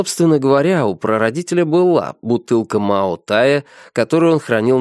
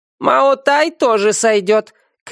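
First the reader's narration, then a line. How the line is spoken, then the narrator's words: Shouted. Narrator (Russian): крикнул кто-то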